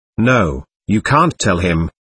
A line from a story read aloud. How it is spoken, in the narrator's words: said